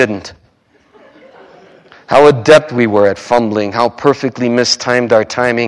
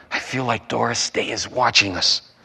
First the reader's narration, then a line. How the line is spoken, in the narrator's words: you whispered